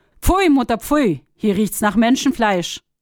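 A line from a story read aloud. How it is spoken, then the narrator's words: Immediate call. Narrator (German): Die Sonne rief sogleich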